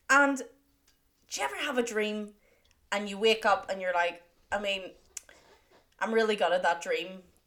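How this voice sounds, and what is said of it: Softer toned voice. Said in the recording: “put on my softer toned voice”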